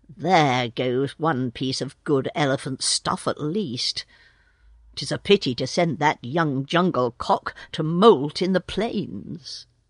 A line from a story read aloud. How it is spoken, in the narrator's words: Mucha Apa, the head tracker, said in an undertone